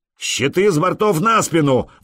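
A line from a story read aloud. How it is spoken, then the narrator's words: Roaring. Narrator (Russian): взревел Простен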